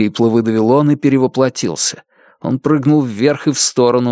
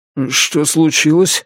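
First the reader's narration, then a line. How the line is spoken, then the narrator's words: Sleepy question. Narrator (Russian): сонно спросил он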